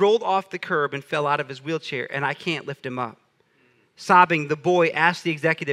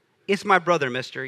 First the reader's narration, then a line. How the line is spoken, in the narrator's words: he said